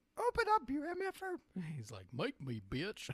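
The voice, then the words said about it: Goofy cartoon character voice. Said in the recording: “Your impression, that was pretty good ... I didn't know you could do Goofy.”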